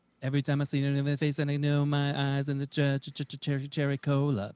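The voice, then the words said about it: Sung impression, mostly one note. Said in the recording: “my Savage Garden imitation ... it's basically one note”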